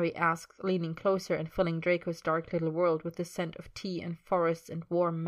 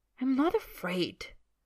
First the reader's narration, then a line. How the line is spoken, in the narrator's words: Draco says hotly